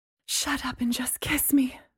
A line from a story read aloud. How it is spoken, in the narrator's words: Mary said breathlessly